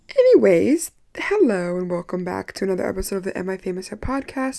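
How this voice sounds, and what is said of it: Raspy, hoarse voice. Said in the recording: “I have a raspy voice because I was hot girling it up all weekend and I lost my voice, or I'm losing it ... I feel like I sound sexy with a raspy voice ... I think I'm right on the line of sexy right before raspy.”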